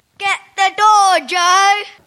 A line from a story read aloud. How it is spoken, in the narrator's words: shouted old